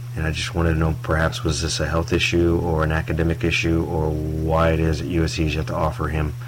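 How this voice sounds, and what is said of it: Smooth radio-style voice. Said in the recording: “That's kind of a smooth radio voice that ... had there.”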